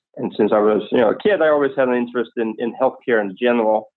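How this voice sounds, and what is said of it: Danish accent in English. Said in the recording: “as you can hear from my accent, I'm not exactly from Oklahoma, but nonetheless, I grew up in Copenhagen, Denmark”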